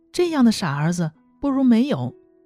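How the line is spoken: Gentle smiling. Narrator (Chinese): 小翠微微笑着说

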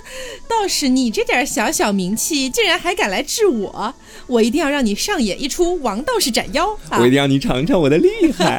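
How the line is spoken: Mocking, laughing. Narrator (Chinese): 山娘娘笑着说

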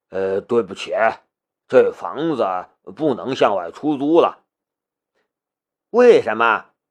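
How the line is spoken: Sighing. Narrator (Chinese): 房主却是叹了一口气

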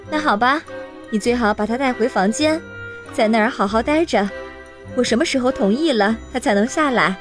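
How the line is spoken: Plain. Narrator (Chinese): 妈妈说

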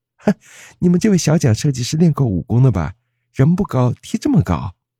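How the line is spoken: Joking. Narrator (Chinese): 开玩笑说

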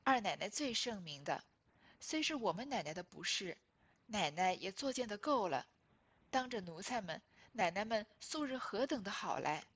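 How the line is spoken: Pleading with forced smile. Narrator (Chinese): 陪笑求说

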